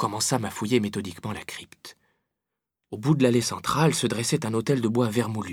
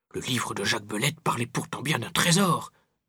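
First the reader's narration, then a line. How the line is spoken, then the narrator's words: Grumbling. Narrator (French): bougonnait Pépé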